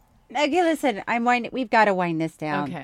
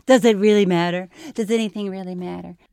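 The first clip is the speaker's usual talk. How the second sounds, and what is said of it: Bad Larry David impression. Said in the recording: “my impersonations... It sounded like Larry did... When you imitate me, you do Larry David. And your Larry David is terrible.”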